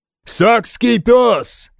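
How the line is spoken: Shouted. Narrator (Russian): прокричал Рагнар

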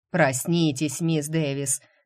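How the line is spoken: Loud bark. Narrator (Russian): рявкнул мистер Сандерс

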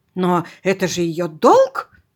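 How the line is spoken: Exclamation. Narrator (Russian): воскликнул

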